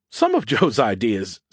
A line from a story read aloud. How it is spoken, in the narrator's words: Skippy giggled